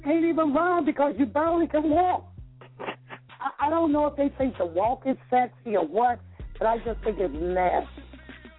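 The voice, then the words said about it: Southern drawl. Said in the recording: “I hear it like a southern drawl ... I heard that southern drawl down there.”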